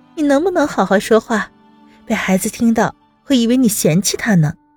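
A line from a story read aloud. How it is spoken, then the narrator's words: Laughing. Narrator (Chinese): 温之夏笑出声来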